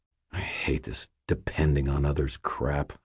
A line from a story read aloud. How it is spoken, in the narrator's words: I muttered